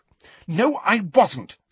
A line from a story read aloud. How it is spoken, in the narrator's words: she said angrily